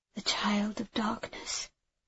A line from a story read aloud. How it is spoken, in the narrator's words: I murmured